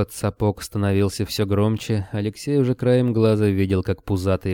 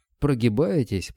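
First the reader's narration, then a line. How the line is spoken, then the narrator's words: Wheezed. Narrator (Russian): прохрипел Кобылин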